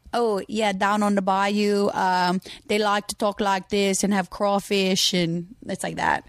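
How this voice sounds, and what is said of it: Slow put-on Cajun accent. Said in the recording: “Can you do a Cajun accent? ... No, it's really good. ... It's very, like, a little slow.”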